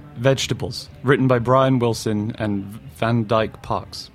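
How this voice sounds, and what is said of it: Dramatic put-on English accent. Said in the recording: “read dramatically in an English accent”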